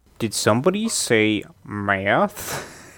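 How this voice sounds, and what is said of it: Imitates a movie character's voice. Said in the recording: “in a Romy voice”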